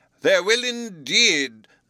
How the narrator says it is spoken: cried the delighted Professor

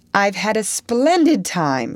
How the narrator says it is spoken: she concluded happily

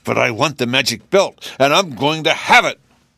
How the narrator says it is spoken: roared the Nome King

